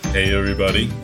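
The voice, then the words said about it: Deep radio announcer voice. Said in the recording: “I'm using my best radio voice. ... if God is a man, God sounds like”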